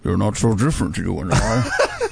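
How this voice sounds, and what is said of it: Imitates another person's voice. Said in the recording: “That sounds an awful lot like your Sean Connery impression.”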